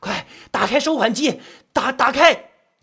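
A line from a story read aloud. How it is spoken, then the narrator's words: Young man roaring. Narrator (Chinese): 年轻人吼着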